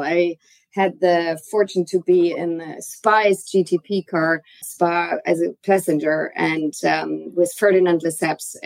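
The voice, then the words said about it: German accent. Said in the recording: “there is an accent for you ... I'm originally from Germany, Frankfurt.”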